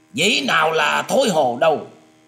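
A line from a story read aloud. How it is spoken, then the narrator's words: Shout. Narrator (Vietnamese): Tiếng quát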